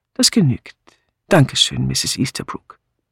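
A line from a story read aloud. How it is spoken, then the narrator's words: Calm speech. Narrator (German): der Inspektor sagte ruhig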